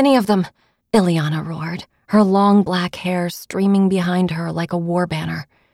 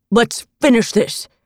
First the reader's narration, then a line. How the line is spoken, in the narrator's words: he bellowed